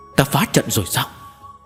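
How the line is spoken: Frightened cries. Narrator (Vietnamese): tiếng kêu sợ hãi của Linh Dục Tú cùng với Bàn Công Thố

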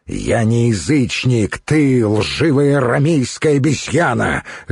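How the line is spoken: Barking angrily. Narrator (Russian): рявкнул Духарев

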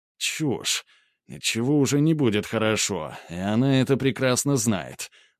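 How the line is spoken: Through gritted teeth. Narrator (Russian): процедил Грубер

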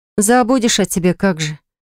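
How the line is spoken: Sighing. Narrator (Russian): Я вздохнула

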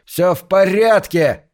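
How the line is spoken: Shouting. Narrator (Russian): закричал он

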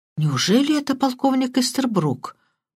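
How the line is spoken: Muttered. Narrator (Russian): пробормотал Крадок

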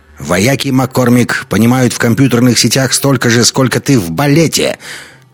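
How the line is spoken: Angry. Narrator (Russian): сердито ответил Догерти

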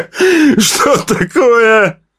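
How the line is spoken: Shout. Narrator (Russian): прокричал он

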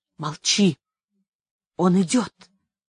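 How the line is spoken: Whispered. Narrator (Russian): прошептал Жиль

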